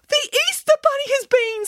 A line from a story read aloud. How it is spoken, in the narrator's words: squealed Boris excitedly